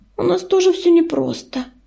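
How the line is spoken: Sighing. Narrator (Russian): вздохнула Белочка

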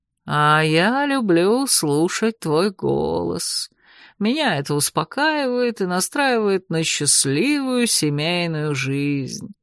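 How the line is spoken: Sly purr. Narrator (Russian): хитро промурлыкал наглый цвак

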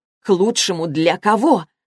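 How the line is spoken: Loud indignant question. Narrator (Russian): спросила она громко, полное негодование

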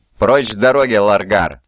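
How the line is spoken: Rough angry bark. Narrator (Russian): грубо рявкнул Лемон Рус, на мгновение сбросив маску ледяного спокойствия

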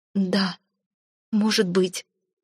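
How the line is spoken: Mumbling. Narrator (Russian): пробормотала Альвин

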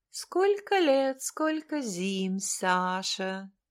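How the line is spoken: Purring. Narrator (Russian): мурлыкает она

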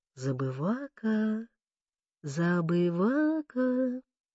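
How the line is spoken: Calling with soft laughter. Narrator (Russian): позвала, тихонько смеясь

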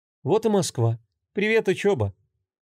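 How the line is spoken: Forced cheer, hidden anxiety. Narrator (Russian): попыталась радостно констатировать факт Юля, но в груди возникло тягостное волнение

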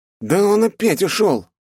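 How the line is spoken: Shouted reply. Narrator (Russian): крикнул в ответ лучник

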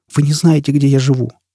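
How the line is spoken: Trembling voice. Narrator (Russian): дрожащим голосом проговорила она

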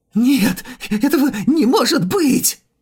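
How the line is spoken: Shrieking. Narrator (Russian): Взвизгнул король духа

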